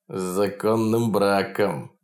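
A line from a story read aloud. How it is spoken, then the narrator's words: Mocking words through teeth. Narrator (Russian): насмешливо процедил маленький мужичонка в лаковых сапогах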